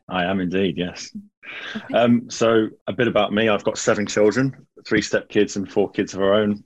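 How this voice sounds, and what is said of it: British accent. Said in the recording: “I love the accent ... you sound like you're from the UK”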